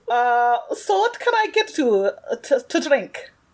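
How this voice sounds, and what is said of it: Put-on bad unidentified accent. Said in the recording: “Just try a bad accent... Your accent's gorgeous.”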